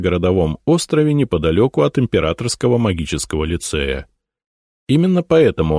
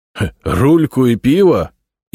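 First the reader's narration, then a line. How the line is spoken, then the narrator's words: Astonished laughter. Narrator (Russian): изумленно расхохотался Толубеев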